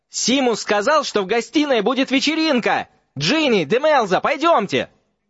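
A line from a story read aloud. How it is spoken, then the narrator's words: Yelling. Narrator (Russian): вопил Дин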